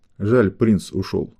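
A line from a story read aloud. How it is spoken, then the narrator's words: Displeased grumble. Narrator (Russian): недовольно буркнула Альфа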